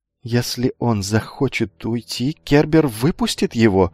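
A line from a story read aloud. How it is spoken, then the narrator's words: Shaky voice. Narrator (Russian): дрогнувшим голосом сказал Лукавый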